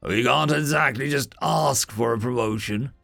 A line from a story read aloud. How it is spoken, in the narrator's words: Dragon said gruffly